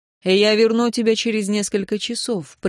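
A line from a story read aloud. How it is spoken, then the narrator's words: Calm. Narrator (Russian): произнес Аарон спокойно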